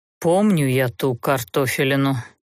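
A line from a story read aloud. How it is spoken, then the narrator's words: Gruff muttering through teeth. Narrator (Russian): нарочито хмуро процедил Даггард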